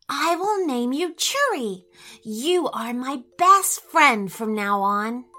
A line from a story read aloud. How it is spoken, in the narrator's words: she whispered